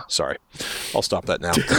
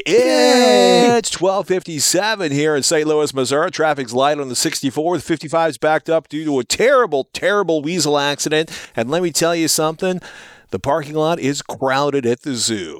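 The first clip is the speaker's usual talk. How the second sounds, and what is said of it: Radio announcer voice. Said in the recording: “I've got radio voice on today.”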